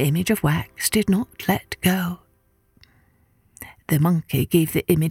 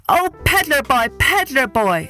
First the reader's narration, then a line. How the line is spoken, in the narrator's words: the monkey cried